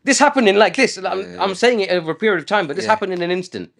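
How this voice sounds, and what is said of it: Raised, emotional voice. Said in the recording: “raising my voice because I'm like getting emotional.”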